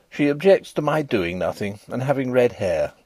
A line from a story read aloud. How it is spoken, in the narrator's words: said I, in an injured tone